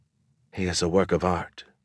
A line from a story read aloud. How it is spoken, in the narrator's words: whispered